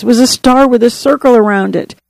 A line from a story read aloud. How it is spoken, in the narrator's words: sobbed, choking out the words